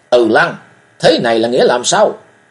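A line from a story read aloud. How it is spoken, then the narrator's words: Furious roar. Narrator (Vietnamese): Cung Cừu tức giận chàng gầm lên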